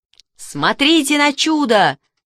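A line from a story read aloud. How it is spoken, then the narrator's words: Shouting. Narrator (Russian): закричал Мишка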